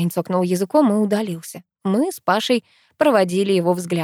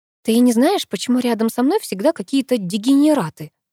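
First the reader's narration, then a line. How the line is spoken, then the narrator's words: Sighing. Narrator (Russian): вздохнула я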